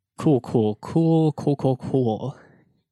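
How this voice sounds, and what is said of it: Imitates a TV character's voice. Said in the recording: “my best Jake Peralta impersonation”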